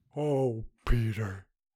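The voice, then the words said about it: Impression of Shadow from Homeward Bound. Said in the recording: “my Homeward Bound impression... Is that Smokey? Or what was his name? Shadow.”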